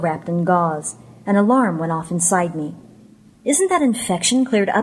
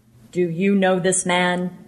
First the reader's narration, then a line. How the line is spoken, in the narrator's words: said in a deep voice